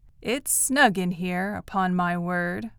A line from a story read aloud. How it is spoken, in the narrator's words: Wistfully, admiringly, the old voice added